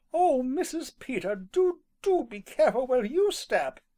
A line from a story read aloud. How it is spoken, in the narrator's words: she cried